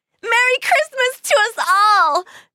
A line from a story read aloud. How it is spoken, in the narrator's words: Corky cried